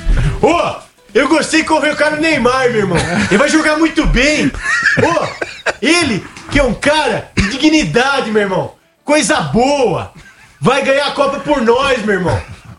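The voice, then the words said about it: Imitates another person's voice. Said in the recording (Portuguese): “Eu adorei a imitação do Craque Neto ... O Craque Neto elogiando”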